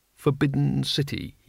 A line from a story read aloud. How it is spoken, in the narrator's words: murmured